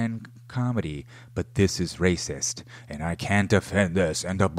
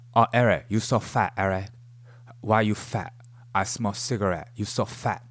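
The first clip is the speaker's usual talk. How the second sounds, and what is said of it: Fake Chinese accent. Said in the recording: “That's not his real accent, by the way. Jimmy O. Yang is putting on a fake Chinese accent”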